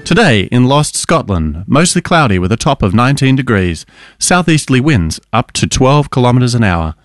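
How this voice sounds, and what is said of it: Imitates a newsreader's voice. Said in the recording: “That was a great impression of Ben ... our newsreader”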